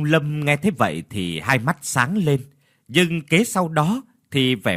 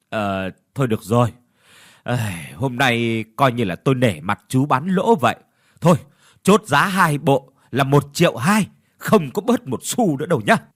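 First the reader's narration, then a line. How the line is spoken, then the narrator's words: Sighing. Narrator (Vietnamese): Lão Hợi thở dài rồi nói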